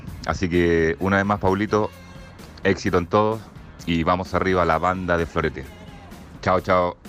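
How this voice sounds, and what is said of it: Polished radio announcer voice. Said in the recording (Spanish): “voz de locutora. ... Extraordinaria la voz ... Voz de, de AM. ... FM, de FM total. ... Este tiene voz de FM, absolutamente.”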